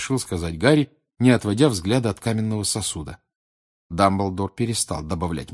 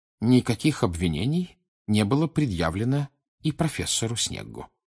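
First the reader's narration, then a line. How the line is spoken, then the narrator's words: Plain. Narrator (Russian): сказал он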